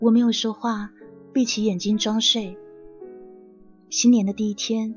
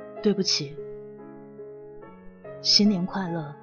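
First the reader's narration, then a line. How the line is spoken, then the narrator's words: Soft sighing. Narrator (Chinese): 他叹了口气，轻声的说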